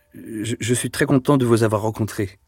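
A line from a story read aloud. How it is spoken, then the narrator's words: Hesitant stammer. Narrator (French): finit par balbutier Deloche, qui se décida à parler le premier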